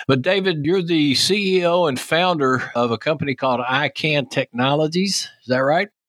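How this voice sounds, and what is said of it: Texas accent. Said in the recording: “my Texas accent ... never works with a Texas accent”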